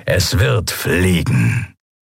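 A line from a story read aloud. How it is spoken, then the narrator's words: Contented grumble. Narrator (German): brummte das Kria hörbar zufrieden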